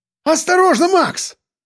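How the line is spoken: Sudden shout. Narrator (Russian): закричал вдруг Сальников

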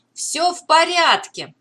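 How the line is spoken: Shouting. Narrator (Russian): прокричал Беннет

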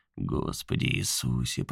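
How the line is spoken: Muttered inner voice. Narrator (Russian): пробормотал другой Хэл в его голове

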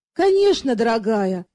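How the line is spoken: Affectionate agreement. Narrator (Russian): ласково согласился супруг

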